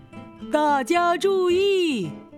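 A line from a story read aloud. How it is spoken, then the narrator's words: Loud megaphone shout. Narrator (Chinese): 狗熊又用喇叭大声喊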